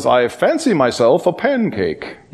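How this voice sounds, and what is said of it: Put-on English accent. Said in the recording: “in an English accent”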